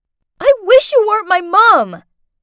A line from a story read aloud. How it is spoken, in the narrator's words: Through angry sobs, screamed